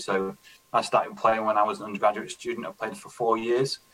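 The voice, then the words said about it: British accent. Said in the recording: “it's going to be strange hearing a British accent”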